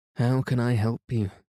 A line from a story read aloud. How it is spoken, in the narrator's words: said Dean Priest hoarsely, as if to himself